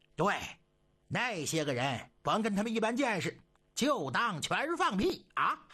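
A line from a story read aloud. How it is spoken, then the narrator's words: Group laughter. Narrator (Chinese): 又跟着一块笑了起来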